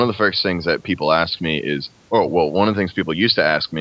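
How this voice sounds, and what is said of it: Usual voice. Nothing is said of it.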